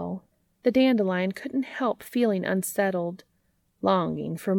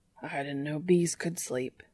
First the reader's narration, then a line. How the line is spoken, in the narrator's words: murmured the man with wonder